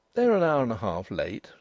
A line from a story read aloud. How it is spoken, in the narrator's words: said Denry calmly